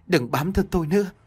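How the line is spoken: Frightened loud shout. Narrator (Vietnamese): Trinh sợ hãi, miệng hét lớn

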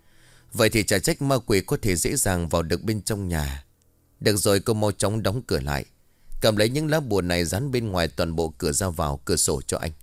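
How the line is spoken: Sighing. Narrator (Vietnamese): Ông Lân liền thở dài

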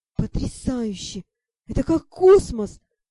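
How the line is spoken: Breathless exclamation. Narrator (Russian): выдохнул Шон

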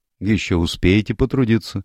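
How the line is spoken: Remarked dryly. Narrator (Russian): сухо заметила сестра Хопкинс

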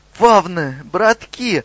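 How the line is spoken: Devil's joyful shout. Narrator (Russian): радостно закричал черт

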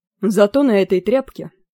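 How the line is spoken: Gloomy. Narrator (Russian): мрачно сказал Мелдун

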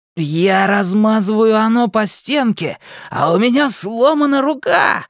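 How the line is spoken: Maniacal laughter. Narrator (Russian): Ричи захохотал, как безумный

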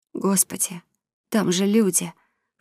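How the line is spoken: Hoarse whisper. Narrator (Russian): хрипло прошептала Элия

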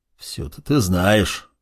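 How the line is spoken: Displeased grumble. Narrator (Russian): недовольно проворчал Маркус

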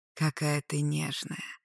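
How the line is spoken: Whispered by dragon. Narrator (Russian): шептал дракон

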